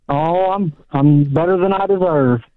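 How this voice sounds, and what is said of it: Drawled, stretched-out delivery. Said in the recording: “I like your drawl on it. I like how you put a little extra length on that.”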